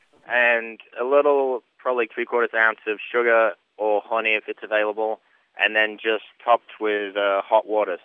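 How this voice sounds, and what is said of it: Northern English and Kentucky accent mix. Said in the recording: “you have a really strange Kentucky accent. ... it's the weirdest combination ever. It's Northern England and Kentucky mix.”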